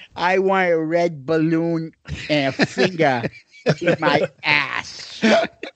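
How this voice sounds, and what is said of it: Imitates another person's voice. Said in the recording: “your Robert Kraft impersonation”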